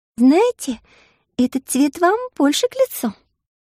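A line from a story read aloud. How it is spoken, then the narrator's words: Joyful. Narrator (Russian): радостно захлопала Маша в ладоши и сказала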